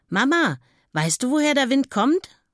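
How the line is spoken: Calling. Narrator (German): ruft sie

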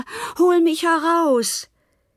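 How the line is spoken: Calling out. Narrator (German): rief er

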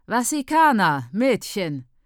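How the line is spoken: Loud call. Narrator (German): ruft Maimanyanga ihre Mieterinnen laut

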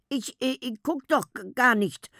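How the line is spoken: Stammered. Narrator (German): stammelte

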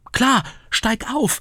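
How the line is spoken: Calling out. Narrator (German): rief Ritter Mütze

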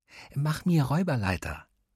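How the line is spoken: Whispering. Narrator (German): flüsterte Luis

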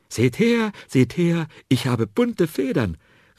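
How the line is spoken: Excited call from afar. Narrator (German): rief er den großen Spatzen schon von Weitem ganz aufgeregt zu

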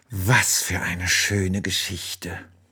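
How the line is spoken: Sleepy murmur. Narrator (German): murmelt sie und fällt schon in tiefen Schlaf

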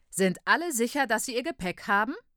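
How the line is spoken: Loud call. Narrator (German): ruft laut

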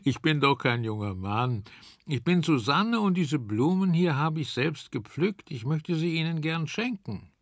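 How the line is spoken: Laughing. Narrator (German): lachte Susanne

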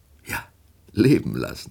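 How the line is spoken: Laughing. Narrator (German): lachte Woldemar

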